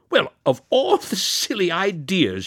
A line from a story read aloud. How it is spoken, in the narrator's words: cried amusedly